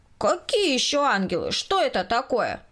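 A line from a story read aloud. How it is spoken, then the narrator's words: Loud question. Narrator (Russian): громко спросил Коля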